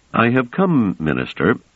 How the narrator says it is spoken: said Trevise calmly

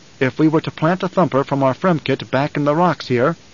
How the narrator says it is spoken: Paul said

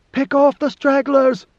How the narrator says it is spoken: She shouted above the battle noise

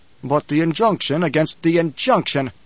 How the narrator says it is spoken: Paul barked

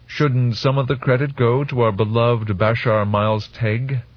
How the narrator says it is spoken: Odrade asked

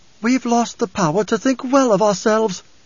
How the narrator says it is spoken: She'd lost her famous Bene Gesserit poise and screamed in council

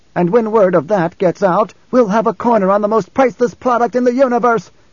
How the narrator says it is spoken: Alia shouted

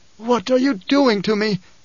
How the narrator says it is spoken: gasped

